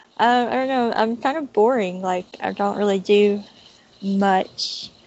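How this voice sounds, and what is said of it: Distinctive non-local accent. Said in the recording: “you have a very interesting accent”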